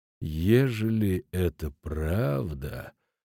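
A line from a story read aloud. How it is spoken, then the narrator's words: Quiet. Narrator (Russian): тихо проговорил Футаки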